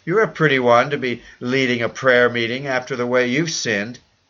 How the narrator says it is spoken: his wife cried out

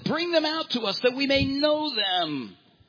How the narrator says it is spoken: they shouted

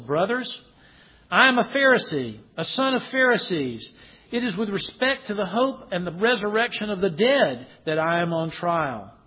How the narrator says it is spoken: he cried out in the council

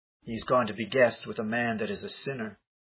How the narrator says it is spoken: they all murmured, saying

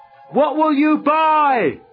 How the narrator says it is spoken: someone yelled out

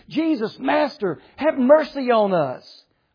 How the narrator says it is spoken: They cried out to Jesus

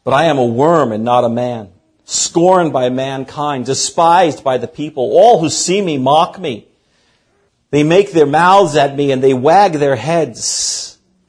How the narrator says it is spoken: is exclaiming

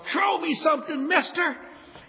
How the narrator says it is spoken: everybody in the crowd yells out

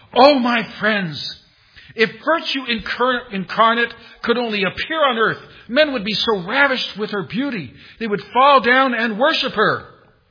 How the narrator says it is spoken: he exclaimed

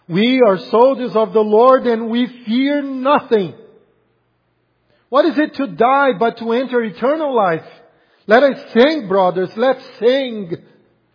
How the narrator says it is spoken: running, some of the soldiers shouted

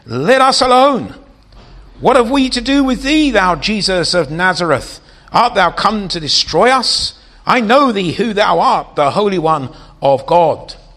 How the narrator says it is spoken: a man with an unclean spirit, and he cried out, saying

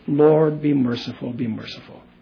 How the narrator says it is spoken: he was softly praying with his muted voice

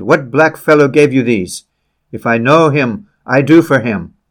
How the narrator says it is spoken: His rage overcame his duplicity, and he exclaimed

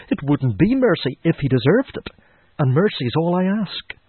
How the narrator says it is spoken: cried the mother

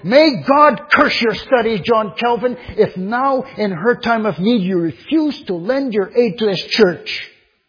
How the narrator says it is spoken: Farel was so eager and insistent that he called out

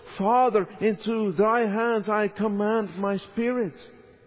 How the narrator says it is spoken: the Lord Jesus had cried with a loud voice

